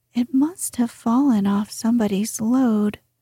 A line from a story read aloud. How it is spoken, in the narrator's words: said Jess